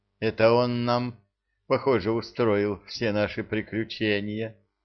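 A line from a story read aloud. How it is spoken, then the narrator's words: Sigh. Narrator (Russian): вздохнул Тинувель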